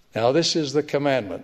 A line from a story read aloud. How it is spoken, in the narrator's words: says the Lord